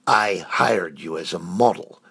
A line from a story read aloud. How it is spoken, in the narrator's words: Froger snapped